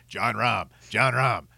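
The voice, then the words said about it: Imitating a co-host's voice. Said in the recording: “my Haji impersonation”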